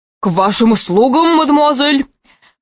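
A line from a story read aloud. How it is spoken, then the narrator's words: Strained bass. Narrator (Russian): произнес он натужным басом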